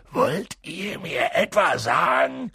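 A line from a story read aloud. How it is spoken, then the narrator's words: Growled. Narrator (German): knurrte er sie an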